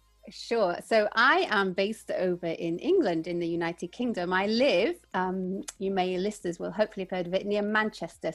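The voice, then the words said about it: Slight English accent. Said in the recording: “a little bit of an accent”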